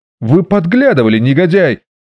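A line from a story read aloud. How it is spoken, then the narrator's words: Shout. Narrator (Russian): закричал де Мондерик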